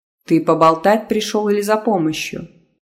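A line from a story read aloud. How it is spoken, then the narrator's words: Grumbling. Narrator (Russian): буркнула Ока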